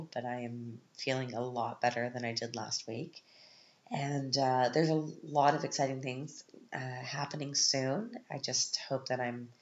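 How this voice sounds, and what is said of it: Sick, congested-sounding voice. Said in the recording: “apologize for my voice. I'm still not completely over my cold”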